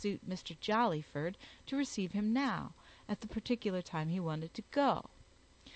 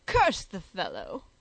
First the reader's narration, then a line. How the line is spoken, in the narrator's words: exclaimed Jollyford, nearly choking himself with a fishbone